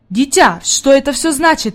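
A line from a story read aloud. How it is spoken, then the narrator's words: Exclaiming. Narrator (Russian): воскликнул господин Сесмен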